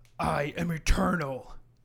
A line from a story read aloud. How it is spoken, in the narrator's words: Santa bellows out